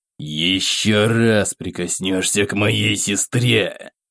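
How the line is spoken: Hiss. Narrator (Russian): прошипел

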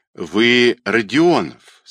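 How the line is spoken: Plain. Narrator (Russian): сказал черный человек

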